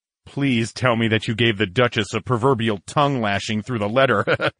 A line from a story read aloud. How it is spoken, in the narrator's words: chuckled